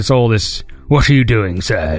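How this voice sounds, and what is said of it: Put-on old British man accent. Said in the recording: “old British dudes talk with like their bottom teeth ... the accent ... doing the accent properly”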